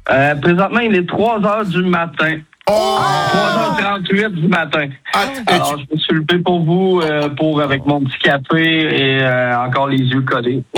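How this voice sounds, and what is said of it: Québécois French accent. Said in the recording (French): “cet accent québécois ... Vous avez de la chance d'avoir cet accent”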